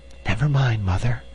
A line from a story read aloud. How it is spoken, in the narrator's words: whispered Hans cheerfully